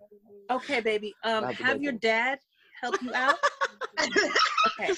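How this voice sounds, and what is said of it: Mom voice. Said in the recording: “That was a mom voice.”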